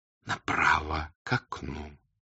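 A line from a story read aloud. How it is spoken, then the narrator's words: Whisper. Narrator (Russian): дежурный шепотом сказал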